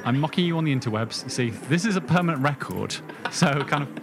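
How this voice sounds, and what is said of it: British accent. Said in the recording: “your British accent ... Oh, it's so fancy”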